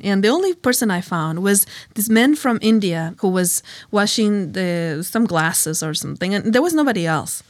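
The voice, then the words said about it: Spanish accent. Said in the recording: “I have a Spanish accent... It's not like the Texan one.”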